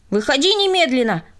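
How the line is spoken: Indignant shout. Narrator (Russian): возмущенно крикнул он

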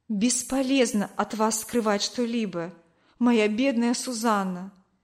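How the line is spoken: Plain. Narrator (Russian): сказал он

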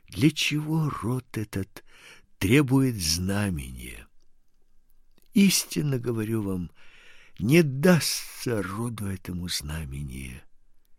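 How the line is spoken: Speaking after deep sigh. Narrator (Russian): глубоко вздохнув, сказал

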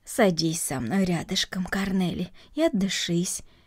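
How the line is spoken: Calm. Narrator (Russian): спокойно произнесла Марта

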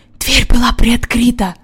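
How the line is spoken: Whisper. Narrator (Russian): прошептал Джон

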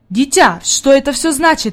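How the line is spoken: Exclaiming. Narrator (Russian): воскликнул господин Сесмон

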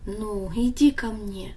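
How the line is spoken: Gentle fatherly speech. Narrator (Russian): Отец ласково сказал

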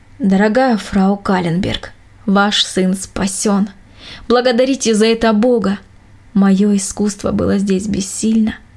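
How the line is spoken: Calm doctor. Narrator (Russian): Врач спокойно сказал

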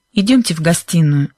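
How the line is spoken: Tense voice. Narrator (Russian): напряженным голосом проговорил мистер Уилкинс

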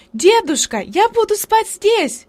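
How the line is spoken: Shout. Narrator (Russian): крикнула она

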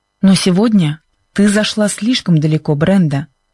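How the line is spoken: Harsh voice. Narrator (Russian): сказал Чак жестким голосом

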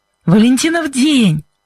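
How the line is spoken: Smiling exclamation. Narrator (Russian): воскликнул Кевин и разулыбался

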